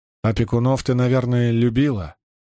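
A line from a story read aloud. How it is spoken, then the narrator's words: Sympathetic voice. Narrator (Russian): поддержал ее Сандр сочувственным голосом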